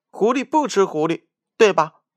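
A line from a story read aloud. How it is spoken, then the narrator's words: Loud laughter. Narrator (Chinese): 三只狐狸放声大笑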